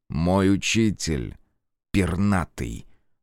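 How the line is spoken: Spat out angrily. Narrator (Russian): Злобно выплюнул Фергус

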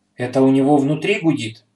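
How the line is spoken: Frightened. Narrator (Russian): испуганно произнес Петя

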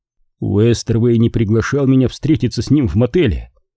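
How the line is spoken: Even voice. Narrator (Russian): ровным голосом заговорил я

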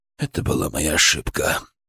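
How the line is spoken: Quiet, as if to himself. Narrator (Russian): тихо сказал он, словно говорил сам с собой

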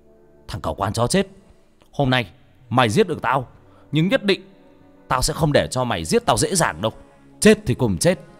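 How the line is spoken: Pained, through gritted teeth, shouting. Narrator (Vietnamese): Gã cố nhịn đau, gã nghiến răng mà quát lên

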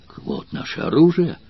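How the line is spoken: Joyful exclamation. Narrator (Russian): воскликнул Спартак, и глаза его засияли от радости

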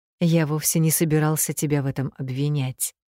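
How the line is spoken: Gentle remark. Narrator (Russian): мягко заметил он

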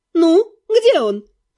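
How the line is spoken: Demanding exclamation. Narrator (Russian): требовательно воскликнула наемница

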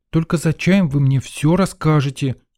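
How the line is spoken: Exclamation. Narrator (Russian): воскликнула Лена

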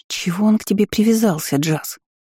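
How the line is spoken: Whisper. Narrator (Russian): шепнула Изабель

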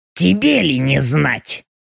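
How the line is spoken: Wry snort. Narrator (Russian): Леха хмыкнул

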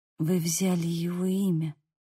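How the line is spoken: Whisper. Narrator (Russian): прошептала

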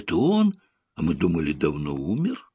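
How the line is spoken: Surprised crowd whispering. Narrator (Russian): зрители с удивлением начнут шептаться

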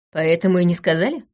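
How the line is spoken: Scoffing snort. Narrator (Russian): хмыкнула я

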